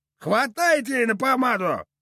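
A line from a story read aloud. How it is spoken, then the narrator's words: Loyal shout. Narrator (Russian): верноподданно выкрикнул кто-то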